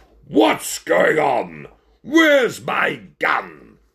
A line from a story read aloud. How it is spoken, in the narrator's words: the ringmaster could be heard shouting